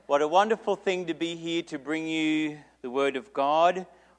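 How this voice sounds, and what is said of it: Australian accent. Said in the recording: “I do speak with an Australian accent”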